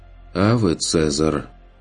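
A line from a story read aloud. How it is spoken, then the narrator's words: Muttering under breath. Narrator (Russian): пробормотал Курт себе под нос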